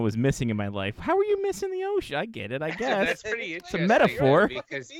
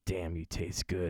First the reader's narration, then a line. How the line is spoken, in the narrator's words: he murmured